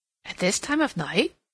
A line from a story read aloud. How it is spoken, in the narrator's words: Cassandra exclaimed